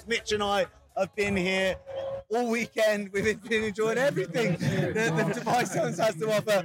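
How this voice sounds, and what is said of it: Hoarse, worn-out voice. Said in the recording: “I've lost my voice. I'm absolutely shattered.”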